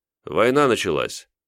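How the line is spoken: Calm statement. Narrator (Russian): спокойно сообщил

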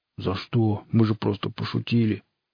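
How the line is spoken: Grumbling. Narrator (Russian): Тумба ворчал что-то вроде

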